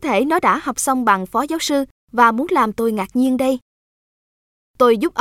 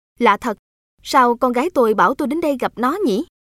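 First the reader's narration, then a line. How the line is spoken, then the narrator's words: Smiling, puzzled. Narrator (Vietnamese): ông mỉm cười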